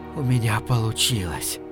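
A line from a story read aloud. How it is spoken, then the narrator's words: Tearful, awed, trembling whisper. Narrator (Russian): Смит, трепеща от восторга, смешанного с ужасом, шептал со слезами на глазах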